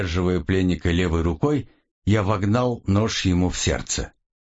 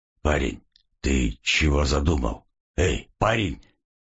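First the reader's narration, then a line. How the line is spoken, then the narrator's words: Hoarse wheeze. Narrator (Russian): просипел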